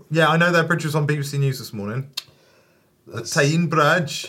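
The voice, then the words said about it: Put-on regional British accent attempt. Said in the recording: “I don't even know what accent I just did. ... It wasn't Newcastle.”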